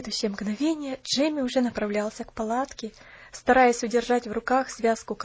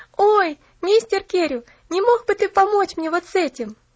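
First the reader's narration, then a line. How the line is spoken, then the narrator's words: Shouted. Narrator (Russian): закричала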